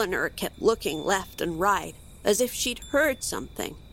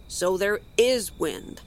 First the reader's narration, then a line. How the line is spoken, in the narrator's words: said gruffly